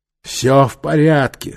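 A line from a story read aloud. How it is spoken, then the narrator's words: Breathy exhale. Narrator (Russian): выдохнул Нефер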